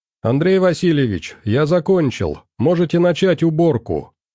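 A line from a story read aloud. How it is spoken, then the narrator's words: Cheerful shout. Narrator (Russian): весело прокричал док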